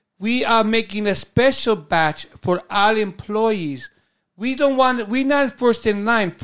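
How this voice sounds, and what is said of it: Put-on German accent. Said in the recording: “I can't do a German accent ... I'm doing Dana Carvey trying to do German”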